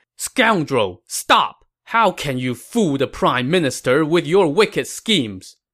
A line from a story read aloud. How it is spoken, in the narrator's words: Zhang Bao shouted